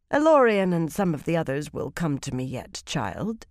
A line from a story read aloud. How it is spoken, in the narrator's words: she said smoothly